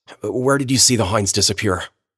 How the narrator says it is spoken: I said

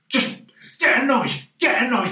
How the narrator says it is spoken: He started shouting to his wife

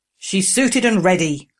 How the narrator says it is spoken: Growler interjected

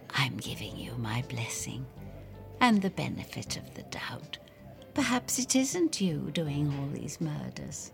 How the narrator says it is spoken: I bend closer and whisper

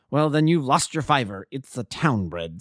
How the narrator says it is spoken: snapped the salesman

